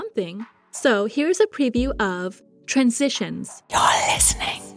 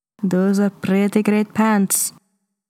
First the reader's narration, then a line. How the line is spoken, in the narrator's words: he said, his voice huskier than usual